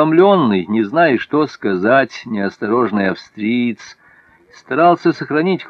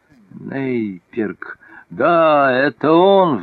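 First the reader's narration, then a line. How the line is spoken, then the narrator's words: Furious hoarse rasp. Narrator (Russian): в безумном гневе прохрипел император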